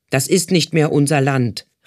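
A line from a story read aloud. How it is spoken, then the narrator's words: Fat man calling out. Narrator (German): rief ein dicker Mann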